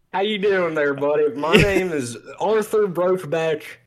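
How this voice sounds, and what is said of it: Loud exaggerated Southern accent. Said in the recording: “the strongest Southern accent. But he was kind of yelling it. He was kind of yelling.”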